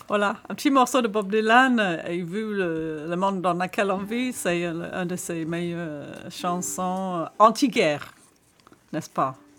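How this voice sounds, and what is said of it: Slight foreign accent in French. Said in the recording (French): “J'ai un petit accent quand je parle français”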